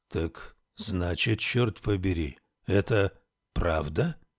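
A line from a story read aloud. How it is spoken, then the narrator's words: Mumbled. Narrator (Russian): пробормотал он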